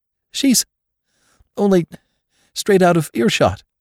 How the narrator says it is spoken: faltered Jane

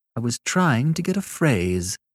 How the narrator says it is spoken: said Annette, with dignity, but less coldly

